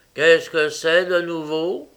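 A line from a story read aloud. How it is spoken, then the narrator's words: Grumpy growl. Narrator (French): grogna le metteur en page, déjà de mauvaise humeur pour avoir été tenu en route si tard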